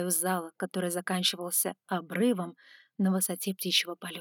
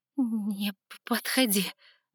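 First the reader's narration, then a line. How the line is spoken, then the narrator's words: Trembling voice. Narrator (Russian): дрожащим голосом произнесла я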